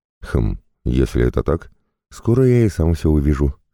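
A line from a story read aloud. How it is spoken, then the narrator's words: Calm reply. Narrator (Russian): спокойно ответил я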